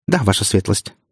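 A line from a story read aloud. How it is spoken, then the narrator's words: Girl's rapid patter. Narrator (Russian): протараторила девушка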